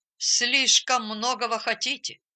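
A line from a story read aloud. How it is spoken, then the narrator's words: Grumbling. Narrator (Russian): пробурчал доктор Аренд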